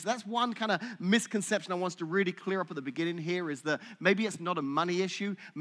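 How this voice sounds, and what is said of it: Smooth British accent. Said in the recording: “Your smooth British accent doesn't fool me.”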